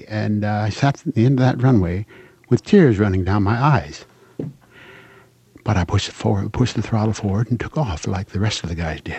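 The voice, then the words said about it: Emotional voice, breaking up. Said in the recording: “I'm breaking up a little here, a little emotional.”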